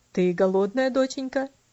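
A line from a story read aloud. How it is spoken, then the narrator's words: Plain question. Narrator (Russian): спросил он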